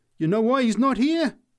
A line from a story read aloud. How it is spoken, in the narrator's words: she answered triumphantly